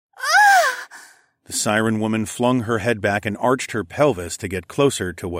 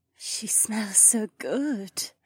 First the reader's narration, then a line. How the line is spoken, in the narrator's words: Shay murmured